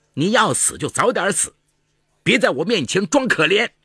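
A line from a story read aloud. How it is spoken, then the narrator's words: Nasty, harsh shouting. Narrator (Chinese): 李文玉恶声恶气地嚷道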